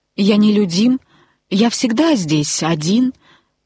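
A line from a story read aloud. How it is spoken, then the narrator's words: Plain. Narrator (Russian): сказал длинный пассажир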